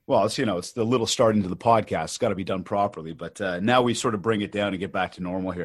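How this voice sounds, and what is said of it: Usual voice. Nothing is said of it.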